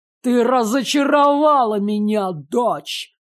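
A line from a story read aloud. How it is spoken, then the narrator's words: Through clenched teeth. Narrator (Russian): процедил наставник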